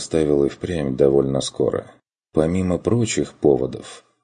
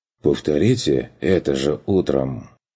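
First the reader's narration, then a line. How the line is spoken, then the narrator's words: Doubtful mutter. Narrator (Russian): с сомнением буркнул тот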